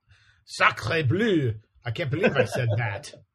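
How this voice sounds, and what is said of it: Bad put-on French accent. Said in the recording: “I have a bad French accent”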